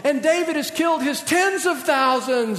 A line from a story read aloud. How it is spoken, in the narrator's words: they yell